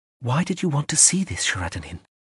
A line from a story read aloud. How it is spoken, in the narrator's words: Smar said quietly